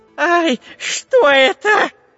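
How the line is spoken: Wild scream. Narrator (Russian): диким голосом закричал шпион Дырка

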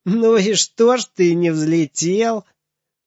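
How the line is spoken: Breathless laughing shout. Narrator (Russian): Запыхавшийся Женя, хохоча, закричал

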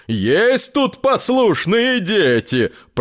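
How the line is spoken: Deep gnome voice. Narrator (Russian): пробасил гном

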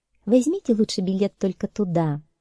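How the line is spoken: Gentle. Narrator (Russian): мягко сказала

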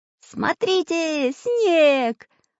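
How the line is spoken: Joyful shout. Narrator (Russian): радостно закричал Чижик

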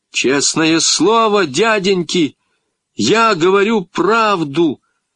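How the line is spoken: Shouted. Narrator (Russian): закричал я

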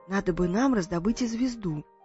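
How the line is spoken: Whisper. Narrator (Russian): прошептала

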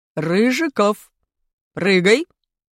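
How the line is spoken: Stern teacher's command. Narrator (Russian): скомандовал строгим голосом наш учитель физкультуры Валентин Васильевич

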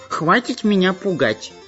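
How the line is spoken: Tearful shout. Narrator (Russian): закричал плаксивым голосом шпион Дырка

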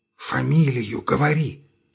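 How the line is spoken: Whisper from behind. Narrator (Russian): шепнул сзади Сельский

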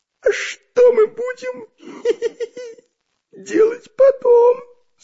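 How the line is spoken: Giggling question. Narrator (Russian): спросил хихикая Дырка

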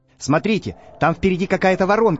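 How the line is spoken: Shouting. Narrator (Russian): закричал профессор Пыхтелкин

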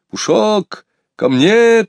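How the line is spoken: Shouting. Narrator (Russian): кричал Сергей Иванович

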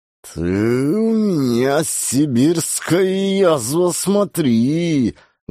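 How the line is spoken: Menacing hiss. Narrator (Russian): Грозно шипел гусь

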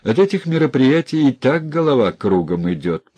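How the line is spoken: Laughing. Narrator (Russian): посмеялся Сильченко

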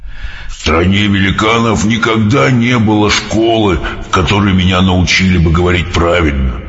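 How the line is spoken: Sad. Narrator (Russian): печально сказал БДВ

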